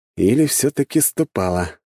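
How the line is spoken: Snorting. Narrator (Russian): хмыкнул я

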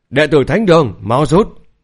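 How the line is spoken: Loud shout. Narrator (Vietnamese): Lôi Bằng thì cũng hét lớn theo

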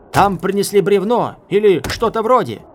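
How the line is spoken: Shouted. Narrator (Russian): крикнули ему

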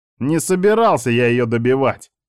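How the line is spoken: Louder growl. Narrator (Russian): рыкнул я еще громче

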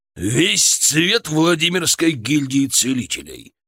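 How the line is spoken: Barking. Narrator (Russian): рявкнул Шаповалов

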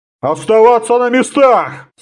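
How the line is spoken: Centurion growling. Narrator (Russian): зарычал центурион

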